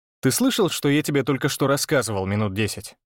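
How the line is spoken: Good-natured snort. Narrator (Russian): Беззлобно хмыкнул

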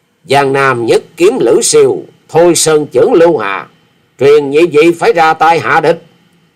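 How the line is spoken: Furious, teeth grinding. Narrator (Vietnamese): Quyết Ma Thể Y Nhân đã hết nổi chế dằn được, thì giận dữ nghiến răng ken két

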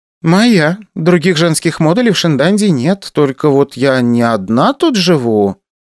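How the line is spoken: Uncertain voice. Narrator (Russian): неуверенно произнесла Ася

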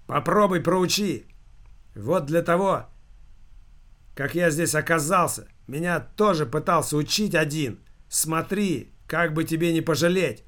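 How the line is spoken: Shouted after someone. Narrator (Russian): выкрикнул ему вслед Тюрморезов

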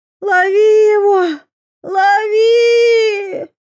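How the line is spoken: Old woman yelling. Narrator (Russian): завопила бабка Нюра

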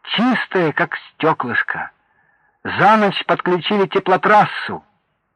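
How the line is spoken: Joyful, solemn crowd. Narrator (Russian): радостные, довольные люди торжественно говорили

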